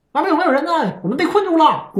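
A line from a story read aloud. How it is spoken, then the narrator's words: Loud shouting. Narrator (Chinese): 咣咣喊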